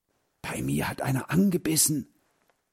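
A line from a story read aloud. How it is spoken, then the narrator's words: Quiet. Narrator (German): sagte Heinz leise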